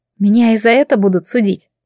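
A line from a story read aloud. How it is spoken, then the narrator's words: Sigh. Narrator (Russian): вздохнула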